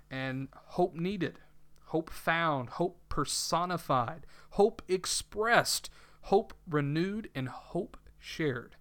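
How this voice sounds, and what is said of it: Southern American accent. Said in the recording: “you who are listening probably can tell by my southern accent ... I'm not one who hides his accent. I try, but it's very difficult. You know, you'll catch the y'alls”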